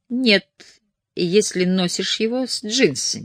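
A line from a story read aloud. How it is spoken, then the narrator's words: Plain. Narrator (Russian): сказала Май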